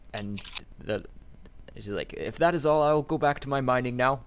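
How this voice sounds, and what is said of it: Put-on character accent. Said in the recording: “It's my default extra accent.”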